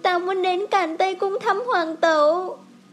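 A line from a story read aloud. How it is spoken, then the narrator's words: Choked, tearful. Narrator (Vietnamese): Triều Loan mắt ẩn ẩn nước, nghẹn ngào nói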